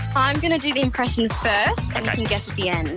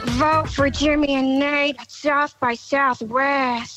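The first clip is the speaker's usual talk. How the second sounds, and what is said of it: Celebrity voice impression. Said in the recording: “her perfect celeb endorsement impression”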